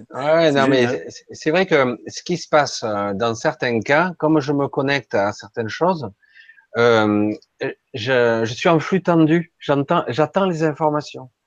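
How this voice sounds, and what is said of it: Accented, very slow speech. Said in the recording (French): “cet accent qui fait que tu parles plus lentement ... tu parles vraiment lentement”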